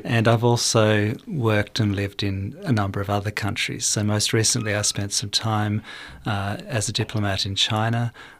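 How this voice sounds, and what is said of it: Australian English accent. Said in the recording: “as you can probably tell from my accent, my home country is Australia.”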